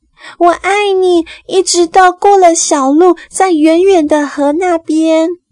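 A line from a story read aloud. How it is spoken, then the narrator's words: Little rabbit shouting. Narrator (Chinese): 小兔子又大叫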